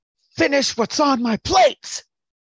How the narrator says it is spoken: shouts

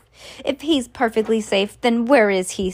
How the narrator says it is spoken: snapped Mrs

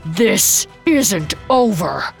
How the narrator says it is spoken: he growled

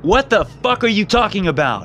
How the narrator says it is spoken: I yelled to no one in particular

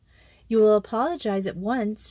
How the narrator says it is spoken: said coldly

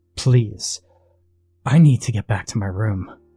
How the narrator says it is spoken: I pleaded, my voice shaking

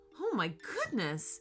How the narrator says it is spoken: exclaimed Mom

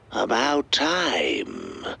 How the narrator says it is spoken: the doctor hissed

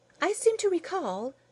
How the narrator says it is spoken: Rose Thinker chirped somewhat unkindly

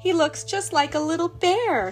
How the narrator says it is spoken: she cried

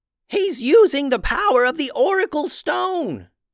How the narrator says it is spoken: yelled Tubes to Momo

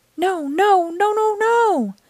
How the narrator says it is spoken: cried Luna Girl

